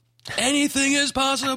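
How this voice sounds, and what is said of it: Imitates another person's voice. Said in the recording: “my Kevin Garnett impression”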